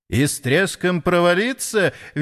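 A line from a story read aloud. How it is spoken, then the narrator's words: Cheerful laughing. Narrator (Russian): весело засмеялся Запольский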